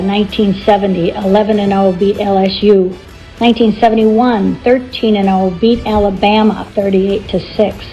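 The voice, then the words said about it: Strong Fargo accent. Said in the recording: “That is the ultimate Fargo accent.”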